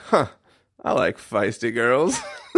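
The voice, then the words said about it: Put-on Scottish accent. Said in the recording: “That was my best Scottish accent, yeah. If you couldn't tell.”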